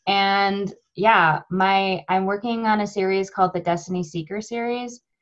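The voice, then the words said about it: American accent. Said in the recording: “I'm from America, I guess you can tell that from my beautiful accent.”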